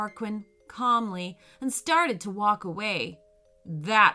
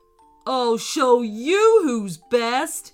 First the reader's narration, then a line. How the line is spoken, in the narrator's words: he growled